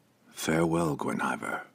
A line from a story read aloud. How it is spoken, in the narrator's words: whispered, his expression sorrowful, almost pitiful